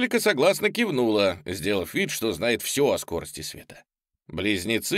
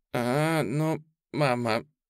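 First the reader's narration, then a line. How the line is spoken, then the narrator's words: Whining. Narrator (Russian): захныкала Анжелика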